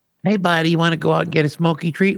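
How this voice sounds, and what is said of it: Imitates another person's voice. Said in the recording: “You do a pretty good impression of me.”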